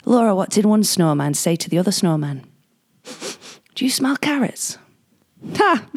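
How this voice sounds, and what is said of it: Put-on northern English accent. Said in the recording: “I'll try and do his northern accent. It's kind of like mine.”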